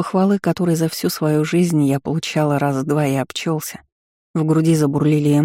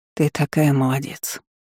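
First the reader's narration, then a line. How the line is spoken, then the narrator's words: Barely audible whisper. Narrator (Russian): шепнула едва слышно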